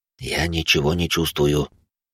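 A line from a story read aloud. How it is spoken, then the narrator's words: Whisper. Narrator (Russian): шепотом произнес отец Марк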